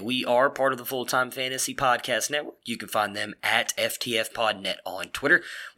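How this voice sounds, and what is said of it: Hoarse, strained voice. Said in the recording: “my voice is still a little messed up”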